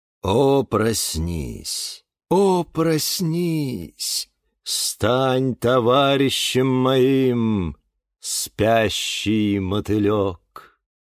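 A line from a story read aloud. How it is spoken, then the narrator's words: Sing-song chant. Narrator (Russian): нараспев, произнес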